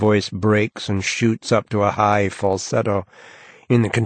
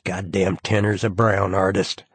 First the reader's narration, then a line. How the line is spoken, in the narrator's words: he mutters sourly